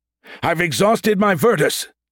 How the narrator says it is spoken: Dolorum yelled

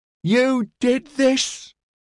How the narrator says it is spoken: a woman screamed at him

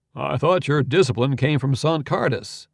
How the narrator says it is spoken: said Beller

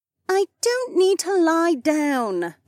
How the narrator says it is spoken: Becca groaned

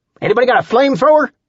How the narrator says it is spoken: Earl shouted

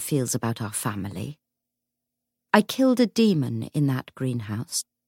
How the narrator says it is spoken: James said evenly

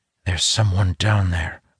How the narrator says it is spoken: I whisper

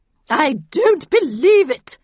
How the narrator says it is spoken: she bellowed

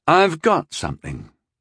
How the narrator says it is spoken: he said quietly

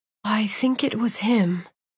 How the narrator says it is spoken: she whispered

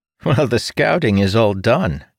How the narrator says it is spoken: Ildin said with a chuckle

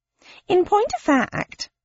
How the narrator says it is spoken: piped up Pickwick

